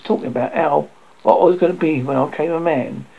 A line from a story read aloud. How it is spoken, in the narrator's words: exclaimed low voice